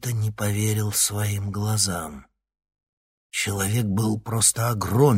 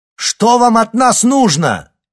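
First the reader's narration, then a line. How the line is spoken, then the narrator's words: Shouted. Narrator (Russian): крикнул Никита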